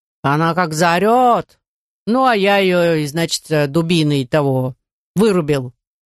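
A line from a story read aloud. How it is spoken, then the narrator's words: Nasal voice narrating. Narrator (Russian): этот гнусавый голос рассказывал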